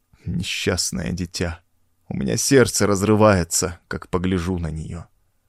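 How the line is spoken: Meek tearful mutter. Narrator (Russian): со смиренным видом вытирая глаза платком, пробормотал

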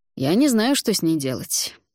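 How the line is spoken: Sudden, young prince. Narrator (Russian): неожиданно сказал княжич

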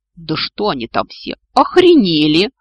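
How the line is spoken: Ruler roaring. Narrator (Russian): взревел правитель

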